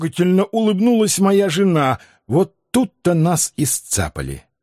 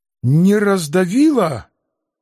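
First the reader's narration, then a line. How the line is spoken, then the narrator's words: Strained, forced words. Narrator (Russian): кое-как выдавил я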